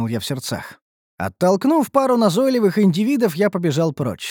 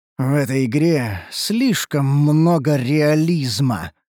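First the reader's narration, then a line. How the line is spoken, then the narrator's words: Hissed through clenched teeth. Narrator (Russian): прошипел сквозь сжатые зубы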